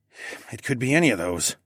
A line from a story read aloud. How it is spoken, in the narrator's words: muttered